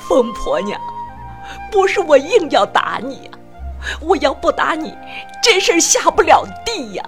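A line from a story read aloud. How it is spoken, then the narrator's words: Sobbing. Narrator (Chinese): 爸 痛哭起来，说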